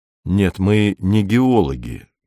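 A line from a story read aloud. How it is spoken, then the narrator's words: Gentle objection. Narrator (Russian): мягко возразил Беркут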